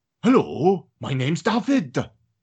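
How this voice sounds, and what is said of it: Put-on Welsh accent, fairly convincing. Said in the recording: “a Welsh accent ... It's all right, Welsh, to be honest. Actually, that was pretty impressive.”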